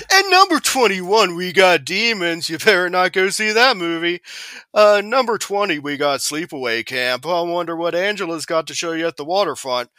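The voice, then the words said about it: Morning-zoo radio DJ voice. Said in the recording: “How long will you let me do my Z Morning Zoo radio voice?”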